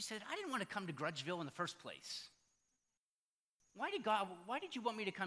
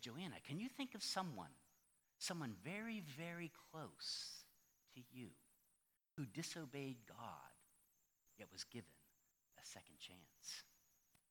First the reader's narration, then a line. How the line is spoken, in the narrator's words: God whispered in Joanna's ear and said